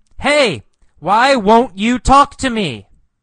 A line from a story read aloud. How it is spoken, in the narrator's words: He yells